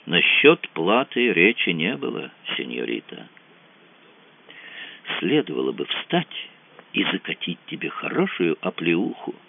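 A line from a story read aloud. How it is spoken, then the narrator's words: Restrained anger, almost calm. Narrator (Russian): В висках жарко постукивала кровь, но он сдержался, сказал почти спокойно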